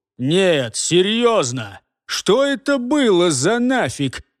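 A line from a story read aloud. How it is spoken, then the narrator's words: Roared through spewing blood. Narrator (Russian): проревел он сквозь кровавые струйки черноты и желчи, выплескивающиеся у него изо рта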